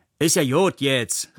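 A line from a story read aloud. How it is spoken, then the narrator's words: Woman calling out. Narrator (German): rief eine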